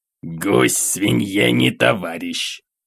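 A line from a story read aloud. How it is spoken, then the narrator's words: Snorting grunt. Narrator (Russian): хмыкнул Волошин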